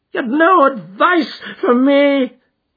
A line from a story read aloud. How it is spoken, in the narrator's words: cried Blessington in a breaking voice